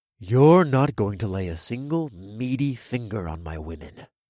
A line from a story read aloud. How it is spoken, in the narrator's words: I said in a deadly quiet voice